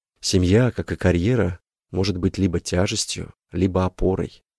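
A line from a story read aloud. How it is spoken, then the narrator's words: Quiet, psychologist. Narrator (Russian): сказал психолог негромко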